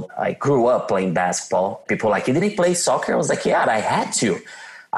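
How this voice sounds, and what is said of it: Brazilian accent. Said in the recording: “You can tell by my badass accent that I'm from Brazil. Some people are like, oh, you sound like you're from Australia.”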